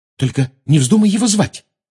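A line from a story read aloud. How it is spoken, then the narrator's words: Agitated. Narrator (Russian): взволнованно сказала Гермиона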